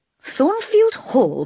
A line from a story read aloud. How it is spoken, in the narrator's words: cried the priest